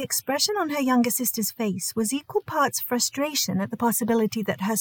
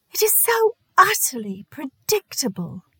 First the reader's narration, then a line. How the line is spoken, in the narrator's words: Dorothea exclaimed